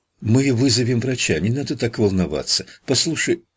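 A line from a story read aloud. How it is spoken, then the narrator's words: Rapid chatter. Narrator (Russian): затараторила она, чтобы отвлечь его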